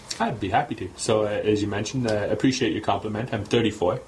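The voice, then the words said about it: Slight speech impediment. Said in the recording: “maybe you can hear a bit of my accent, it's actually a speech impediment.”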